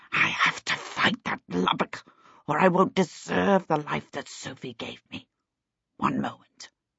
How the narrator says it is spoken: He added in a small hiss that trembled slightly

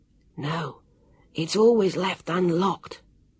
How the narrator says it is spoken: Jonathan whispered to Sam

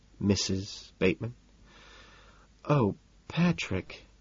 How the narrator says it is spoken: she sighs, melting

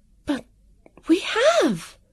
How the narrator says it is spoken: Vivian cried out in a burst of relief

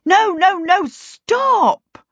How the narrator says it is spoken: Peter shouted

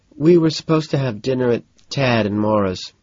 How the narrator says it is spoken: sighs

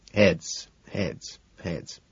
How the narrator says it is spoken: I mutter under my breath

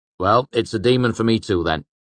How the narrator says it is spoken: Chronicler said sharply

